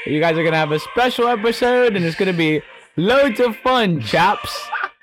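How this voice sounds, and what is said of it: Put-on British accent. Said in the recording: “that was a really good British accent you had there”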